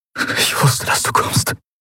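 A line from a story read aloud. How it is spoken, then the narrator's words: Breathless between kisses. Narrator (German): brachte er atemlos zwischen den Küssen hervor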